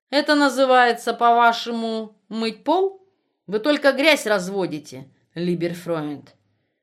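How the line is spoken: Snide mocking question. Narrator (Russian): Альтман, насмешливо щурясь, ехидно спросил

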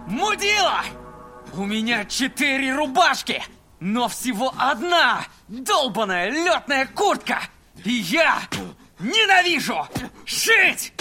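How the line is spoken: Furious yell. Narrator (Russian): Заорал он

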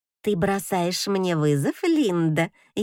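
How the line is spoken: Snide mocking reply. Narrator (Russian): ехидно отвечает Софи

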